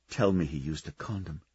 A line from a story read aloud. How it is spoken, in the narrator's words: she whispered to the universe